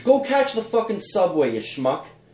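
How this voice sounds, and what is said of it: Put-on New York accent. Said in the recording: “Now you turn into a Donald Trump New Yorker over here”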